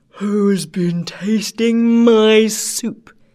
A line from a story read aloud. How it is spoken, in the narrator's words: he cried in a great big voice